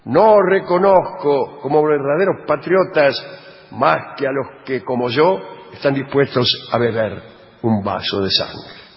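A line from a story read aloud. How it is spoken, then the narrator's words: Deputy exclaiming. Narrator (Spanish): un diputado exclamó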